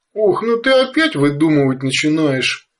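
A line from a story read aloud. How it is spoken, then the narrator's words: Serious grown-up sigh. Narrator (Russian): По-взрослому серьезно вздохнула вторая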